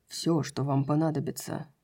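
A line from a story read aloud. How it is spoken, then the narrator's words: Quiet. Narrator (Russian): тихо сказал Хант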